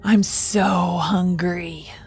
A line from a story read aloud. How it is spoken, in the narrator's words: she hissed